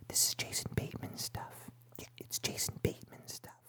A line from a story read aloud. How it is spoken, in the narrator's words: one of the bag boys came up, you could hear him whispering to his pals